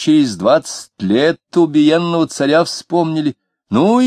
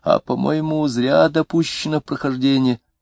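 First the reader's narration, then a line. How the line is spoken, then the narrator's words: Weak hoarse gloomy voice. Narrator (Russian): Третий голос, слабенький и сиплый, уныло сказал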